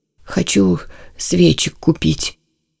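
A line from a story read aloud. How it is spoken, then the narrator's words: Dejected voice. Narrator (Russian): упавшим голосом сказал он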